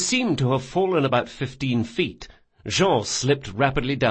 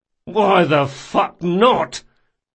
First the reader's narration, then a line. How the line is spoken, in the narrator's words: Locke groaned